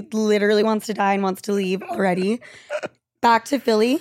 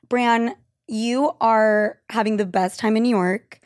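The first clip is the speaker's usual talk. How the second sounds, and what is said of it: Sarcastic tone. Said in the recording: “I'm saying that sarcastically.”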